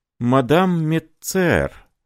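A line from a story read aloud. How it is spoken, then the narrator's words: Breathed out. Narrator (Russian): выдохнул он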